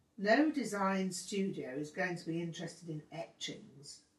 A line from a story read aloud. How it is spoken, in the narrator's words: Todd sneered